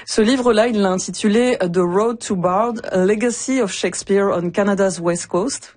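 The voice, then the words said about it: French accent speaking English. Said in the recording (French): “Vous excuserez mon accent français dans ce titre-là.”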